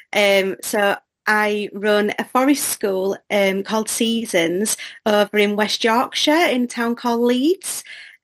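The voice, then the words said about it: English accent. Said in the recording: “as you can tell by the accent, I'm from England”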